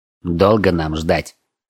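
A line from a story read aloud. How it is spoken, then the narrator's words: Irritated question. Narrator (Russian): раздраженно спросил друга Вель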